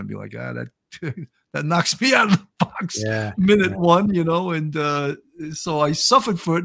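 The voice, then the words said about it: New York accent. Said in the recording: “because of my New York accent ... I love your New York accent”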